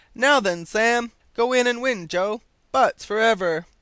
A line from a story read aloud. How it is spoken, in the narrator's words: encouraging cries